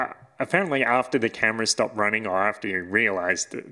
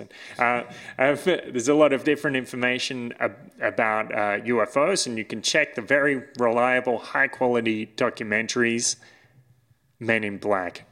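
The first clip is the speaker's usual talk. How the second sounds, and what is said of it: Put-on German accent. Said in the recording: “I'm doing a German accent, it's not a Russian accent.”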